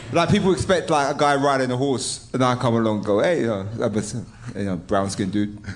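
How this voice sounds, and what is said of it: English accent like a chimney sweep. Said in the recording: “you sound like a chimney sweep ... You sound more like a chimney sweep than us doing our best impression of a chimney sweep ... people get surprised of this accent”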